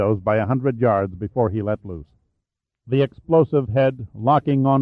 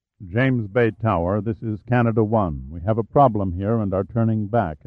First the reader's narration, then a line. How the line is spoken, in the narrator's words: Emmett said in a calm monotone